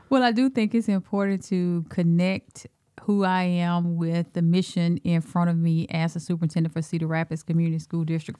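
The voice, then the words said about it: Southern US Alabama accent. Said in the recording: “this accent, right? And that's that's from my roots of down south in Alabama ... you got that deep in you ... deep South”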